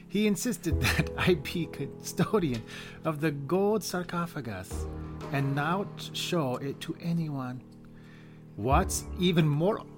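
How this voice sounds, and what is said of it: Convincing put-on accent. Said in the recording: “accent ... It's actually really good ... Good. It's great.”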